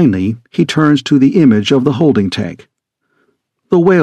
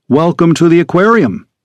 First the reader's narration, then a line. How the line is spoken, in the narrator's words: Finch says